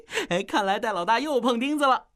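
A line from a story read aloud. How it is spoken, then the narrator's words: Gloating laugh. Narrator (Chinese): 奥斯卡幸灾乐祸地笑道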